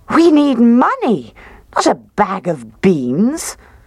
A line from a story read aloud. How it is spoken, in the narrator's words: she cried